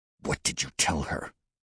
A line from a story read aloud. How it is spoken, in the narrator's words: He hissed to Casper